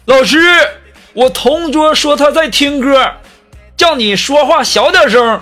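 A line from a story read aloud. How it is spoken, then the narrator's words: Sudden loud shout. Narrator (Chinese): 这二货突然就举手大喊呢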